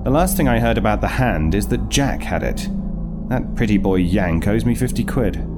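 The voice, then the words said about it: Affected British accent, done well. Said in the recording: “the affectation of an accent. Anyone who knows you knows you're not British ... It's a bloody good affectation ... You do wear it well.”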